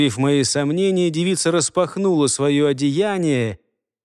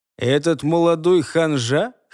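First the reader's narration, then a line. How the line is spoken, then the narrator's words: Scoffing snort. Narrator (Russian): Хмыкнул я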